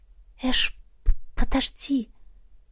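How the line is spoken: Quiet plea. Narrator (Russian): тихо попросила она

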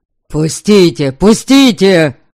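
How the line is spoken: Shouting in mixed languages. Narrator (Russian): Кричал он то по-словенски, то по-северному

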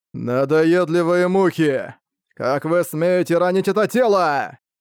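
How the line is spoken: Screaming. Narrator (Russian): Завопил Люцифер

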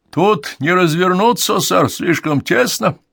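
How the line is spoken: Barked in reply. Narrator (Russian): гаркнул он в ответ

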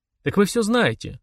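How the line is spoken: Oddly calm. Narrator (Russian): даже как-то спокойно сказал

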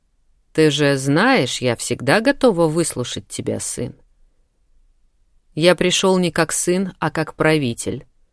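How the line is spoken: Cold curt remark. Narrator (Russian): холодно бросил Ахлф

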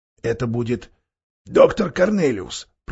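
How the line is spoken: Whisper. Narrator (Russian): прошептал Трам

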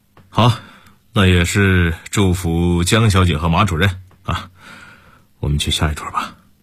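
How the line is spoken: Faint smile. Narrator (Chinese): 沈韵淡淡的一笑

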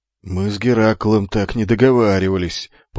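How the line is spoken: Grumbling mutter. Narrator (Russian): после долгого молчания буркнул солдат

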